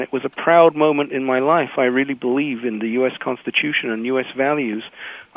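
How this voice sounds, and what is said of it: British accent. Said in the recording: “as you hear from my accent, grew up in Britain”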